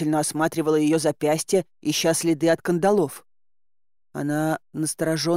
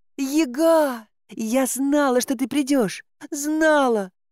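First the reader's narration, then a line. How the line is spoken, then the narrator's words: Sobbing breathless. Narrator (Russian): всхлипывая, выдохнула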